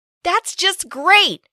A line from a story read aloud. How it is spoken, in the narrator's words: I complained loudly